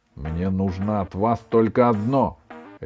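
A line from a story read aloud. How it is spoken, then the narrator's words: Barked. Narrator (Russian): рявкнул Ван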